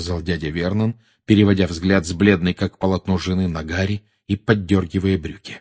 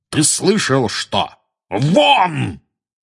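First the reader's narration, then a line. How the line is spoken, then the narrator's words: Startlingly loud bark. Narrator (Russian): гаркнул дядя Вернон так, что даже тети Петунья и Дадли подскочили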